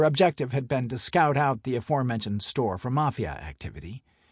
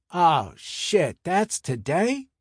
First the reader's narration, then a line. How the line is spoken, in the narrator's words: Alan groaned